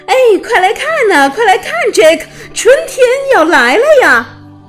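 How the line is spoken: Happy shout. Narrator (Chinese): 他高兴地喊

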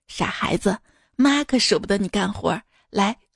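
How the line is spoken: Mother, gentle. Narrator (Chinese): 我妈当时一愣，突然温柔跟我说

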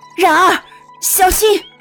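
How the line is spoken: Loud shout. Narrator (Chinese): 叶青大喊了一声

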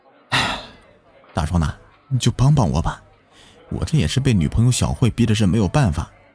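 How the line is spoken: Sighing. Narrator (Chinese): 小李叹了一口气说道

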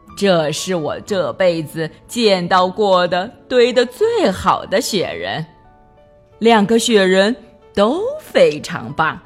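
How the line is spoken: Smiling. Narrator (Chinese): 她才微笑着说

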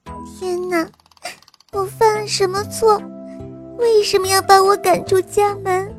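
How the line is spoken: Crying loudly. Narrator (Chinese): 公主……都会大哭着说

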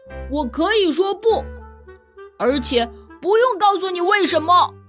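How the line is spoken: Roaring shout. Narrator (Chinese): 安迪吼道

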